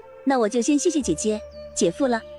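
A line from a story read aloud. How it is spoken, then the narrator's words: Smiling, cheerful. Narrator (Chinese): 李欣笑盈盈的说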